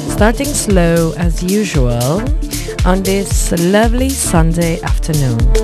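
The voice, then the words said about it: Put-on British accent. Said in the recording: “How do you like my British accent? Some people say it's weird. Some people say it's cute.”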